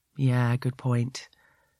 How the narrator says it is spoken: he says sadly

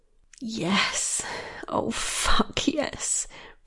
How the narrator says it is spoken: breathed Michaela

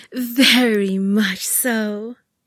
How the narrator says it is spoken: I snorted at a chuckle

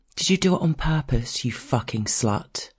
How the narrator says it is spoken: she says

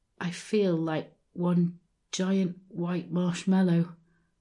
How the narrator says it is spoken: I mumbled

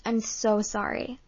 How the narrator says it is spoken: I stammered

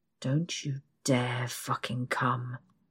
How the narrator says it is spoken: he growls

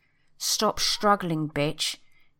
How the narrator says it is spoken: growls

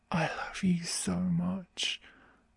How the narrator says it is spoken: I whisper into his ear through my gasps

